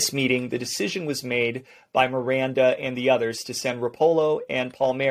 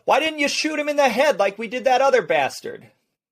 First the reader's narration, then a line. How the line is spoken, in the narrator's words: George Georgie Blair Smurra, yelled